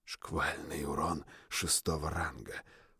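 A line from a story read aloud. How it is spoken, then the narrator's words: Whispering. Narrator (Russian): прошептал охотник Валькири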